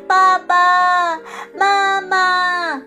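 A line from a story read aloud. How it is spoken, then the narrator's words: Repeated calling. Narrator (Chinese): 它不断地叫呀叫呀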